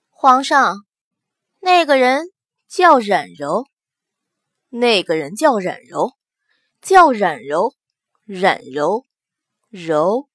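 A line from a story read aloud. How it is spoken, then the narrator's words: Flat, indifferent. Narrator (Chinese): 淡淡的开口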